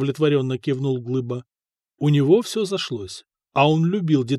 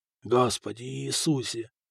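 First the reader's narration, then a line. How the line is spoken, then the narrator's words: Whispering through bitten lips. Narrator (Russian): шептал Фока обкусанными губами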